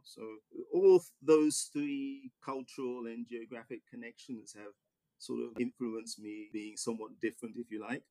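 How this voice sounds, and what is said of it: English accent. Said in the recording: “you could probably tell from my accent that I grew up in England”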